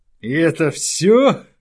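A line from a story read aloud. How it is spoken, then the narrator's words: Laughing. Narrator (Russian): засмеялся Белатор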